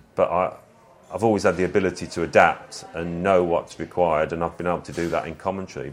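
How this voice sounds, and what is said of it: Brummie (Birmingham) accent. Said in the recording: “whining, brummy drawl”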